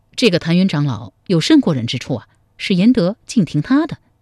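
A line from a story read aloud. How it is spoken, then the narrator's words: Plain. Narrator (Chinese): 赵匡胤问道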